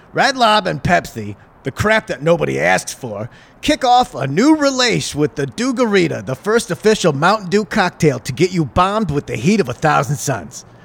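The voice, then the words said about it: Made-up character voice. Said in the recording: “read this in a Carl Welzin voice ... I'm making up a fake person”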